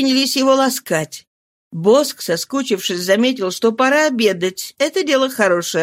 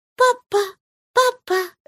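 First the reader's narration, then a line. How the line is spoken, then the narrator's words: Child's babble. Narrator (Russian): лепетал ребенок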